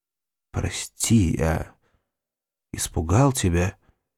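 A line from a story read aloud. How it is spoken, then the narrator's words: Quiet speech. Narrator (Russian): тихо сказал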